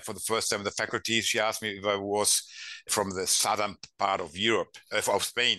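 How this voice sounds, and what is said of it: German-accented English. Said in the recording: “My English is terrible with that German accent.”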